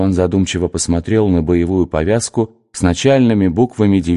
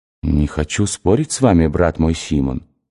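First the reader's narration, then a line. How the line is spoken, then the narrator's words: Soft male voice. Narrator (Russian): сказал он мягко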